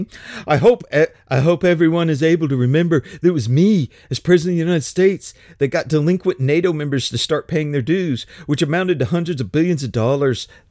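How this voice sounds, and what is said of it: Imitates another person's voice. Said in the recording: “My Trump impression is so bad”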